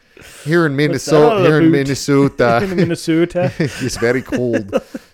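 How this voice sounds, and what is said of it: Attempted Midwestern accent sounding Irish. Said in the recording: “That went like Irish. ... I can't do a Midwestern accent. It goes Irish every time. ... it goes Irish hard.”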